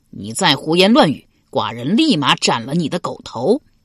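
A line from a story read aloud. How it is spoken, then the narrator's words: Furious roar. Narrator (Chinese): 齐襄公大吼道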